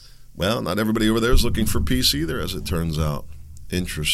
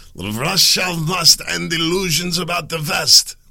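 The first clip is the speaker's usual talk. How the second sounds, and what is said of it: Put-on Russian accent. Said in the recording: “That was my best Russian accent.”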